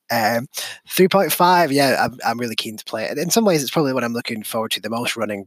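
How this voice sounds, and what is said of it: Fast-paced regional accent. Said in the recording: “I think my accent is a bit quick for some people”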